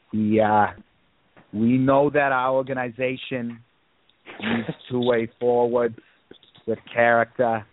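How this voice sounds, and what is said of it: Poor Lou Lamoriello impression. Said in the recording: “this is awful. This might be my worst. ... Lou Lamoriello impression ... It sounds more like Maya Quimby of Springfield.”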